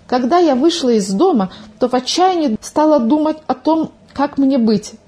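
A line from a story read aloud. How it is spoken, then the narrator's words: Agitated, excited. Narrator (Russian): взволнованно начала свой рассказ Милка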